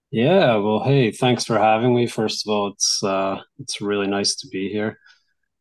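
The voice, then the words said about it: Scottish accent. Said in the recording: “calling in from Scotland, so we get another wonderful accent on the show”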